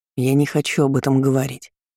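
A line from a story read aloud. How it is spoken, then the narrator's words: Curt irritated retort. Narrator (Russian): раздраженно отрезал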